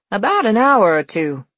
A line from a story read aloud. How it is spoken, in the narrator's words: said cheerfully